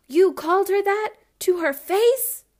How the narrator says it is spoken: Theo exclaimed

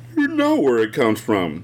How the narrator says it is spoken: her mother said with a yawn that betrayed her exhaustion after a night with no sleep and too much drama

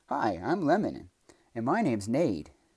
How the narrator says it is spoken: two lemon saplings that were planted right next to her exclaimed

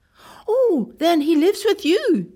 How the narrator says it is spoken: gasped

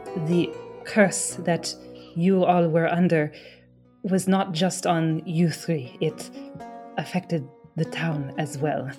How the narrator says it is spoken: interrupts, and he steps in and kind of just says quietly under his breath

